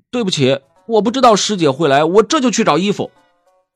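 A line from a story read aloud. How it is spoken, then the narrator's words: Loud. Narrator (Chinese): 魏无羡大声道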